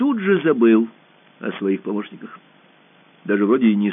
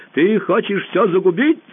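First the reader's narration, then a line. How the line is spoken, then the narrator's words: Shouting. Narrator (Russian): закричал он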